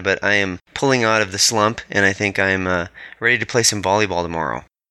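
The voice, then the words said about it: Slightly off, congested voice. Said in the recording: “as you can hear, my voice is still a little bit off because of the cold I've had”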